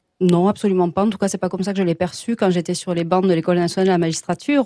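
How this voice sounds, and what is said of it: Toulouse French accent. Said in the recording (French): “mon bel accent toulousain”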